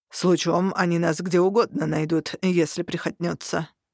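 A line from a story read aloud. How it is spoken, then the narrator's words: Displeased grumble, orc. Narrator (Russian): выходя из прострации, недовольно пробурчал орк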